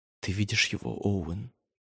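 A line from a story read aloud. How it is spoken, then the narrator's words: Whispered. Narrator (Russian): прошептала Дэвин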